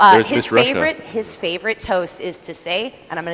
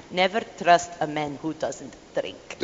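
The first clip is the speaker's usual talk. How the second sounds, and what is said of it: Put-on thick Russian accent. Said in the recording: “He's got this thick Russian accent ... I'm gonna do it in his accent”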